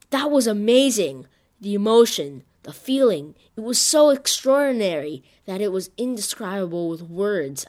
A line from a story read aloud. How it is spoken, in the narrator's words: I exclaimed